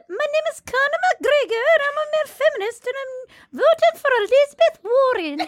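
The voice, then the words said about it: Poor put-on Irish accent, high-pitched. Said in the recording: “I can't do an Irish accent... You're getting more high-pitched.”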